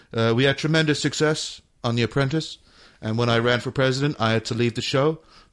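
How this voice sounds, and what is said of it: Bad Donald Trump impression. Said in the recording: “my bad Trump impression”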